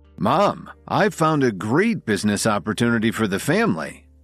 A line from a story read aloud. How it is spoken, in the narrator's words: Oliver explained excitedly